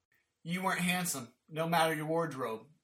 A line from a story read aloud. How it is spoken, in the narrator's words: Jay chuckled